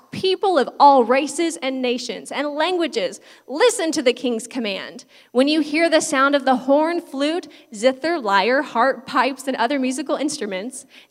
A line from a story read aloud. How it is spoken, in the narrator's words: a herald shouted out